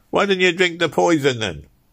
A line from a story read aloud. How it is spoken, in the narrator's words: shouted several voices